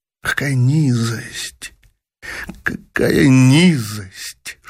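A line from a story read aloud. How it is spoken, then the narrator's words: Bitter whisper. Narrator (Russian): шептала с горечью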